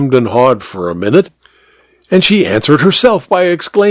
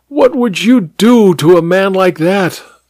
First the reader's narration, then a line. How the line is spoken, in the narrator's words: her eyes were blazing, and she grabbed my hand and cried